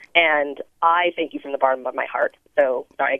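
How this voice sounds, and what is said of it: Teary, emotional voice. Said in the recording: “I get teary”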